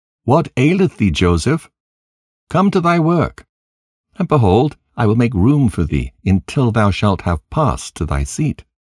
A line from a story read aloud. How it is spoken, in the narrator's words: Zelekah called out to him, saying